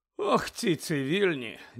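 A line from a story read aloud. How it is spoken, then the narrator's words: Sigh. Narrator (Ukrainian): зітхнув Фетерер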